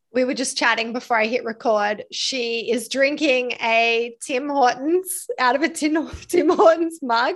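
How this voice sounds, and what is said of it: Eclectic mixed hard-to-place accent. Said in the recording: “I love your accent, how it's developed ... It's a bit of a weird eclectic mix ... it's universal. It's got a global appeal ... They can't guess. Yes. I've had South African, New Zealand, Canadian, mm-hmm. Australian”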